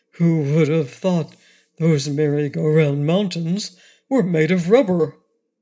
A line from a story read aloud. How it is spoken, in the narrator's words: they grew more calm and collected, and the lion said with a sigh of relief